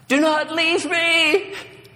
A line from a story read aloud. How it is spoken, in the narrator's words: pleaded the king